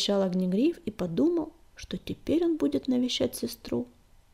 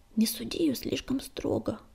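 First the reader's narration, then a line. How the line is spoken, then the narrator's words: Sighing. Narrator (Russian): вздохнул Огнегриф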